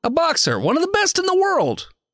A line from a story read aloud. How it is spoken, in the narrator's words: he says excitedly